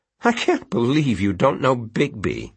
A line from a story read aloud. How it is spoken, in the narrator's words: Elliot said, chuckling